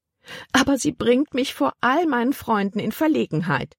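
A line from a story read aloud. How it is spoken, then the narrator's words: Whining complaint. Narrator (German): jammerte Tante Vi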